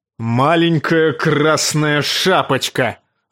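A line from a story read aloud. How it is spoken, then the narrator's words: Barked. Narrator (Russian): рявкнул он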